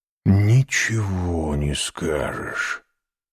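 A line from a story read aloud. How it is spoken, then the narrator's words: Whisper. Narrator (Russian): шепнул Альбер Франсу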